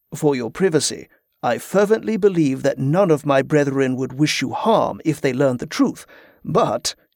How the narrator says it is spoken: he said with a chuckle

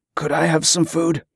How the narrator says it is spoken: croaked, his voice weak

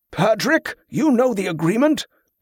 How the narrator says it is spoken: one of the monks called out as they neared

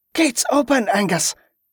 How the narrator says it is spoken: suddenly Kelisandra shouted in triumph

